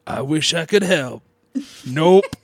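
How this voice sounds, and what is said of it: Impression of the Watcher (Jeffrey Wright). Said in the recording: “Perfect Watcher impression. Perfect Watcher. ... I've been working on my Jeffrey Wright.”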